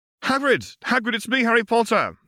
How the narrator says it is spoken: he called out, hoping that Hagrid could hear his voice above the din

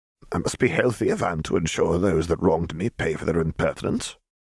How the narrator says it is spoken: Sato muttered

